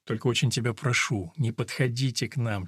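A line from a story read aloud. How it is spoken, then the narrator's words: Quiet persuading. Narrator (Russian): тихо увещевал приятеля Альберта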